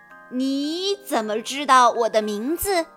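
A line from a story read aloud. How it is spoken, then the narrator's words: Smiling big man. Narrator (Chinese): 大块头男人也报以微笑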